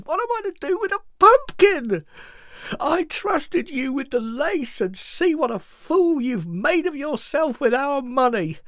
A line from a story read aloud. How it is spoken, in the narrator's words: cried